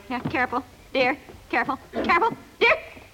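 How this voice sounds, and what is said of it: Yelling. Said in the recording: “stop yelling”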